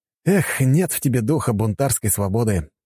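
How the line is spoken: Sigh. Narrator (Russian): вздохнул я

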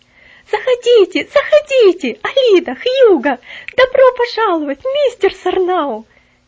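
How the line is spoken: Warm joyful exclamation. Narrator (Russian): С сердечной радостью воскликнула она

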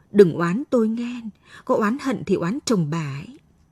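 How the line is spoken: Trembling hired killer. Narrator (Vietnamese): thằng cha giết mướn run rẩy bảo

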